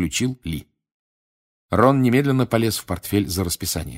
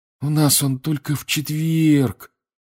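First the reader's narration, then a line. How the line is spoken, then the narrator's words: Disappointed sigh. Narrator (Russian): разочарованно вздохнул он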